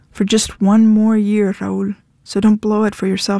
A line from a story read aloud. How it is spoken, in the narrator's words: she said